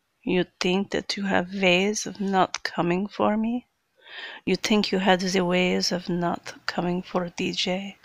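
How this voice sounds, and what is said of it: Put-on Russian accent. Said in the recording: “me having some fun doing a Russian accent.”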